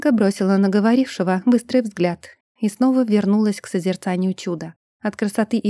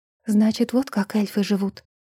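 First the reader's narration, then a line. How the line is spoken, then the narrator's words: Wistful whisper. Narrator (Russian): прошептала, вспомнив свое безрадостное детство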